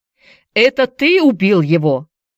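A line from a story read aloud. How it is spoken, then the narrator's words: Shout after someone. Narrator (Russian): крикнул Энди ему вслед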